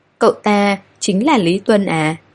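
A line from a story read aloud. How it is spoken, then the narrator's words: Trembling. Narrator (Vietnamese): Hầu Ninh run run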